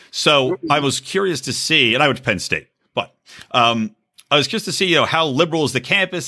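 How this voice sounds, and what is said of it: Slight Philadelphia accent. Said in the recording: “you might detect a little Philly accent in me”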